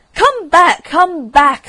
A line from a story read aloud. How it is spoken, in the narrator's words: screamed the Rocket